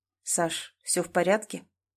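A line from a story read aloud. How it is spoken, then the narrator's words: Low husky voice, close. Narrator (Russian): Его голос прозвучал прямо у плеча, низкий, хрипловатый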